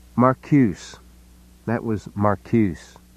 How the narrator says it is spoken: Penny said flatly

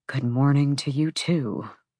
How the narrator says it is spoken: he mumbled

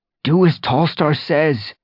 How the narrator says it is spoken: Fireheart mewed desperately to Bluestar

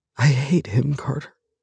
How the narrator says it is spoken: she whispers

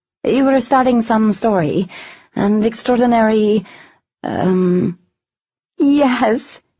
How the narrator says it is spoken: Arian said happily

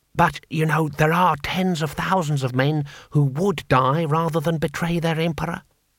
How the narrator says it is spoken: whispered Six Beneficent Winds

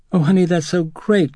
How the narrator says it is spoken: Chris exclaimed

